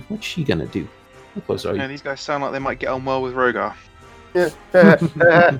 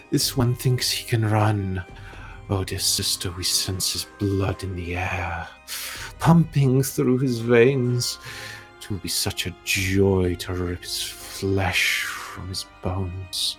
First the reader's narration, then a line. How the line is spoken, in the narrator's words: you just hear a cackle at you and goes